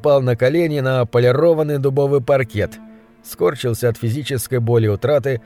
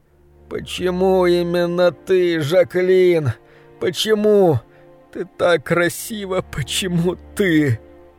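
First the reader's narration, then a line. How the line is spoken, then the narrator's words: Long sobbing. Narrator (Russian): Он прорыдал почти 10 минут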